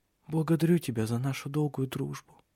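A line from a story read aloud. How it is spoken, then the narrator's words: Whisper. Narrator (Russian): шепнула она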